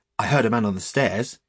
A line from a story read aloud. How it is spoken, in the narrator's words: he said hastily